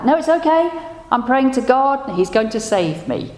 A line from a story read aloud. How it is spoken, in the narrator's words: the stranded fellow shouted back